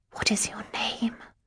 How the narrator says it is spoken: whispered aloud

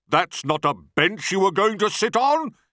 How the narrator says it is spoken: he bellowed

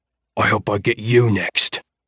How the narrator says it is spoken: Amit growled

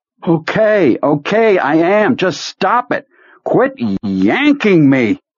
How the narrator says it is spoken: From a great distance he heard himself shouting

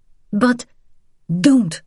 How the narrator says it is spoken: Vian snapped

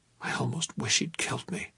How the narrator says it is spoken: whispered

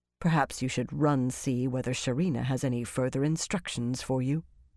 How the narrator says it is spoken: Romanda said coldly

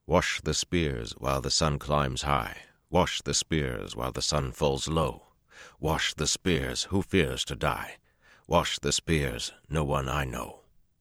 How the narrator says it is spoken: the Aielman began to sing in a deep, clear voice

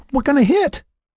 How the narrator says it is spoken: Lynn cried out

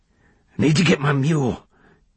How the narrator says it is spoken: wheezed

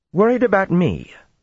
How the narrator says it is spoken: snapped

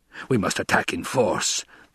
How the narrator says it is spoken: the Baron rasped

